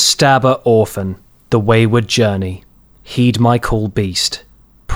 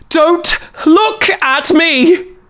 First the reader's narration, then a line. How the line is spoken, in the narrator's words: She screamed with desperation in her voice